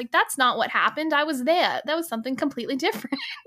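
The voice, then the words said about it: Put-on New York accent. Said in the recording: “the really New York like accent ... my New York accent is like Boston adjacent”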